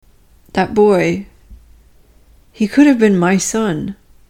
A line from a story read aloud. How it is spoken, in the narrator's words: she said